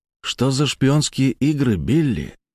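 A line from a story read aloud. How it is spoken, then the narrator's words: Quiet question. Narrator (Russian): тихо спросил я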